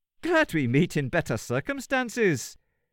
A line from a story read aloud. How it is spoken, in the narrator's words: said, laughing